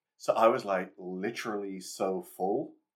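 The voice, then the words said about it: Put-on American accent. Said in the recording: “you were doing an American accent”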